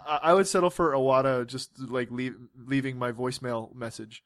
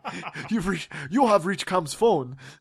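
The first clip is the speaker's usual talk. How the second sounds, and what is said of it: Iwata impression, Japanese accent. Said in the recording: “That was probably incredibly racist towards Japanese people. I'm sorry for that accent, but that's just how he sounds.”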